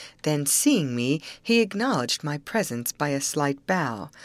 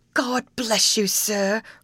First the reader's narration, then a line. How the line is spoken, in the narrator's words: cried the grateful old woman, ready to weep for joy